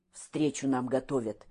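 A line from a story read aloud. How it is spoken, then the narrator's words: Quiet. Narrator (Russian): тихо молвил Петр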